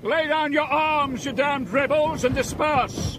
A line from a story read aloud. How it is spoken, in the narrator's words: Major John Pitcairn, the British commander, shouted